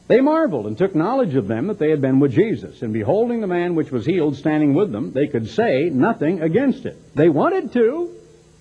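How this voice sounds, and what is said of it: Texas accent. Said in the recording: “I don't hear that I've got a Texas accent, but some people do”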